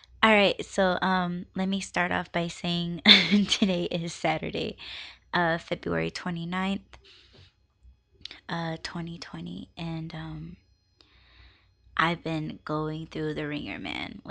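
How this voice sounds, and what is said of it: Raspy voice. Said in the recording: “my voice sounds a little bit raspy ... I sound raspy”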